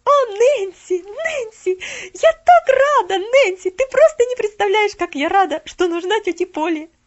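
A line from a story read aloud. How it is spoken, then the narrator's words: Ecstatic girl shouting. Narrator (Russian): В восторге закричала Поллианна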